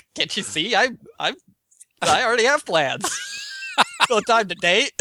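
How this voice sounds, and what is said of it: Imitates another person's voice. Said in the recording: “your Mitt Romney impression. That's actually pretty good ... Which is just confused white guy.”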